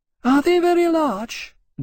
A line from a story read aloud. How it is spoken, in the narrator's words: Dulcia said anxiously